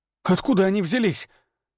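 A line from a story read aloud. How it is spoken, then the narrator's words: Breathless exhale. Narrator (Russian): выдохнул Дамир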